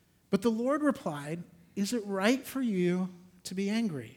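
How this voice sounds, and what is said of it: Usual voice. Nothing is said of it.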